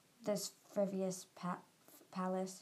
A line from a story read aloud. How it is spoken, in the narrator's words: she muttered